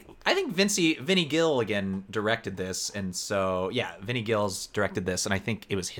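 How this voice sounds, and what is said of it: Usual voice. Nothing is said of it.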